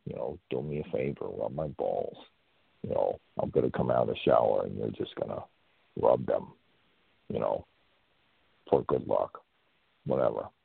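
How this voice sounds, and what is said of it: Semi Hoffman impersonation. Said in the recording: “That was my, you know, semi Hoffman impersonation.”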